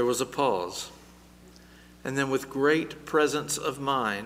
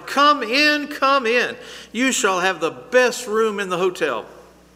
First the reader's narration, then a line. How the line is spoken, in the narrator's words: he beamed a bright smile and cried